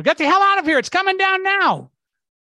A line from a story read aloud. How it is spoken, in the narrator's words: a police officer yelled